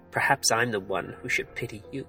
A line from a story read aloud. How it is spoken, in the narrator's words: With a sneer, he said